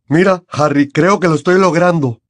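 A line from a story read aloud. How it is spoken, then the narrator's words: Shouted. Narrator (Spanish): gritó Seamus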